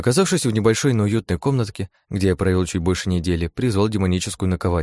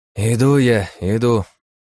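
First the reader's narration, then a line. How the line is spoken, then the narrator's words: Heavy sigh, reply. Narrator (Russian): тяжело вздохнув, ответил я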